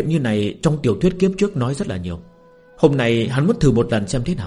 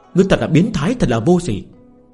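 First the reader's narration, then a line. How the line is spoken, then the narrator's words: Embarrassed loud shout. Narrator (Vietnamese): nàng này nhất định sẽ cảm thấy xấu hổ, quát lớn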